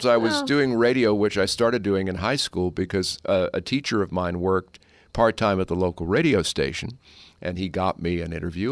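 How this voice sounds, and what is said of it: Deep resonant radio voice. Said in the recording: “you've got this great resonant radio voice ... I had a lower voice than the teachers”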